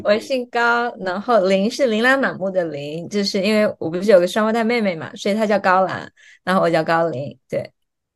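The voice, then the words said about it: Southern Chinese accent, from Fujian. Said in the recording (Chinese): “我听口音的话应该是南方人 ... 应该是福建或者浙江。 ... 口音一听就知道是南方人”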